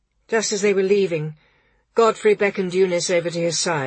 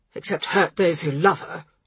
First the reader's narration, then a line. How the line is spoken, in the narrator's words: replied Bomber crossly